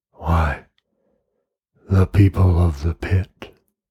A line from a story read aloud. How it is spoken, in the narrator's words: replied the crawling man quietly